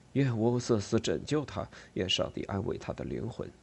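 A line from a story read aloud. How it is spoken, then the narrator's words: Low, altered voice. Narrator (Chinese): 科扎哈带着变调的声音低沉地说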